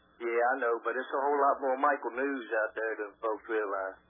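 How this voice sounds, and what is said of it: Southern American accent. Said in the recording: “I don't know what it is about a Southern accent, but I just love it.”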